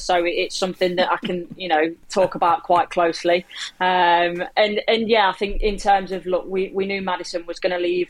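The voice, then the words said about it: Leicester English accent. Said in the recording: “people can't tell from my accent, I am from Leicester”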